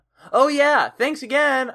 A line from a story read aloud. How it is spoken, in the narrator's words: I shouted